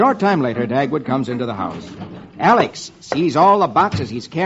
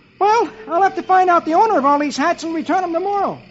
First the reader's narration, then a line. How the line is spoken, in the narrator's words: Dagwood exclaims